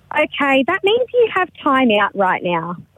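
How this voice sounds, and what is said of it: Stern teacher voice. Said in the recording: “your teacher voice”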